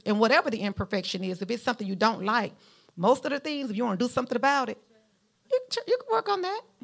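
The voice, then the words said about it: Southern US drawl. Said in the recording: “you have that southern accent ... I was raised in Mount Vernon, Alabama, in the South ... the southern drawl”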